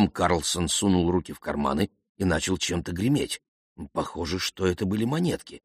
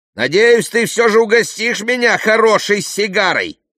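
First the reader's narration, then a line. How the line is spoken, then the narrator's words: Shouting. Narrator (Russian): крикнул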